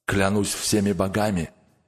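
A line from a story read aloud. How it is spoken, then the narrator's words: Grumbled. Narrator (Russian): проворчал Гьюкунг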